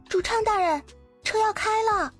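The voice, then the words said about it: Quiet, soft calling voice. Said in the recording (Chinese): “他在门口小声的呼唤着。”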